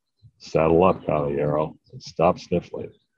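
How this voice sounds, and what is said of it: John Wayne impression. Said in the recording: “That's a Sean Wayne impersonation.”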